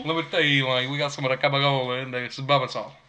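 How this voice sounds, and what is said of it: Put-on Italian-American mobster accent. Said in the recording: “Talking Italian, man. That makes me miss the old show, The Sopranos. ... I'm not speaking Italian. ... Gibberish.”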